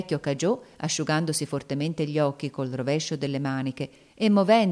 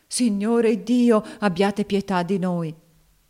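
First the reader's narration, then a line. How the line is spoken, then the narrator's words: Tearful old woman's plea. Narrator (Italian): la vecchia Dina, tutta in lacrime anch'essa, esclamava con voce patetica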